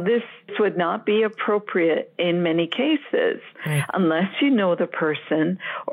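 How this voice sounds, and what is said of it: American English accent. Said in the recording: “they hear my accent and they're like, where are you from? No, but did you fly over from the U.S.?”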